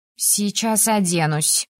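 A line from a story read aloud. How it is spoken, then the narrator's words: Woman grumbling. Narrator (Russian): буркнула она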